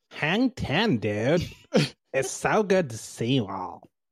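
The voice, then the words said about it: Laid-back surfer dude voice. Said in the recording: “doing a beach bro voice”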